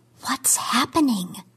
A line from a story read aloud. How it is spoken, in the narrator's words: She whispered